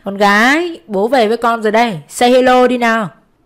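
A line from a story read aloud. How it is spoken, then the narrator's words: Hearty, laughing greeting. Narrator (Vietnamese): cười và chào bằng một giọng hào sảng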